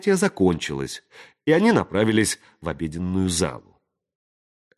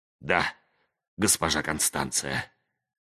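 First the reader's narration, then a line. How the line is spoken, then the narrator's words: Hoarse whisper. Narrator (Russian): хрипло прошептал он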